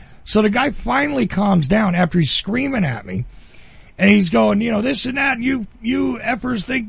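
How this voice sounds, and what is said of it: New Jersey accent. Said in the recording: “I'm from New Jersey. Listen to my accent.”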